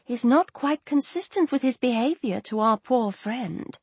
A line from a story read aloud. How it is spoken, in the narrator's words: whispered her aunt as they walked